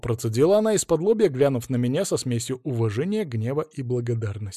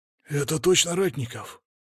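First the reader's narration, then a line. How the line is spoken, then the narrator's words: Hurried whisper. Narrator (Russian): Уже за моей спиной раздался торопливый шепот огневика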